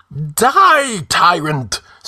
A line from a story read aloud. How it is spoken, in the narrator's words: screamed the mad minstrel